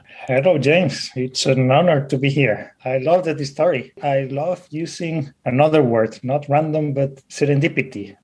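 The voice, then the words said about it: Spanish-accented English. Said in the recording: “I love the way that you say the word serendipity. ... with that accent. I'm from Spain.”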